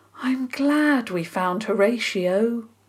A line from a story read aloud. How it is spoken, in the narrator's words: Dora said with a deeply happy sigh